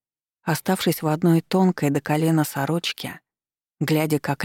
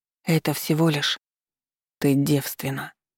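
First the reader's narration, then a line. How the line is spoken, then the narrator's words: Muffled, hollow voice. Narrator (Russian): глухо произнес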